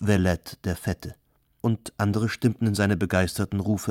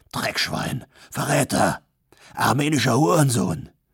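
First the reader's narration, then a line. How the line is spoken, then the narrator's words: Hissed. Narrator (German): zischte Konstantinos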